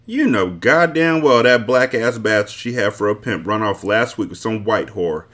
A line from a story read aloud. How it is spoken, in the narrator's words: she said harshly